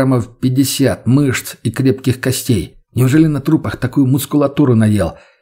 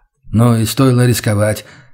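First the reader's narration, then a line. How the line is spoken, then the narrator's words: Sighing. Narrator (Russian): вздохнул Мельниченко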